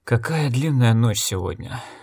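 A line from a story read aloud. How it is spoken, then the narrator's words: Breathed out. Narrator (Russian): выдохнул Зарт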